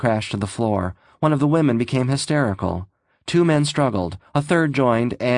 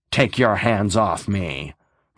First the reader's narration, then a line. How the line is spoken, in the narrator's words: Reynolds said in an ugly voice